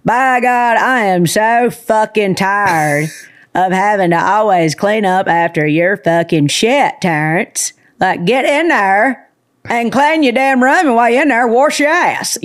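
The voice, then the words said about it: Sharon Jean character voice. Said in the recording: “the character that I think I'm most known for, her name's Sharon Jean ... Can you do the Sharon Jean voice”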